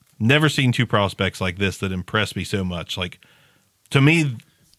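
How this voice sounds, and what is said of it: Solemn, lowered eulogy-like voice. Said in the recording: “are you getting ready to deliver a eulogy? What just happened to your voice? ... It might be the voice coming down from the yelling.”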